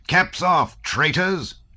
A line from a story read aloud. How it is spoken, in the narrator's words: shouted Rostov in a wrathful voice